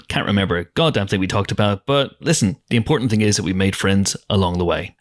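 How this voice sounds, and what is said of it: Northern Irish accent. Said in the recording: “my accent gets naturally stronger ... another Northern Irish person”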